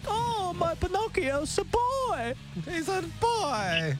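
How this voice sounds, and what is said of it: Geppetto character voice impression. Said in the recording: “your Geppetto impression”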